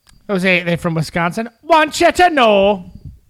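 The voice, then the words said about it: Bad put-on Wisconsin accent, sounding Jamaican. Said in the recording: “that's my Wisconsin accent ... Whoa, that was Jamaican. That was terrible. ... That was not good. ... That had like a half Scottish in there too. Scottish, Jamaican, Wisconsin.”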